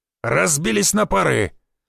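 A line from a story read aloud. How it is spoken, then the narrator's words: Shout. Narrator (Russian): Никитич крикнул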